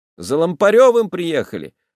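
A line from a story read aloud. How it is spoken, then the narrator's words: Indifferent announcement. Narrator (Russian): возвещает дядька равнодушным голосом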